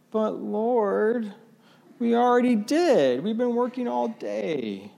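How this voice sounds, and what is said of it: Whiny, grumbling voice. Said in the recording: “I can just hear the whiny voice. ... Grumbly, whiny”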